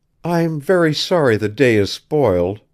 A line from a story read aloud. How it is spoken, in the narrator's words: returned brokenly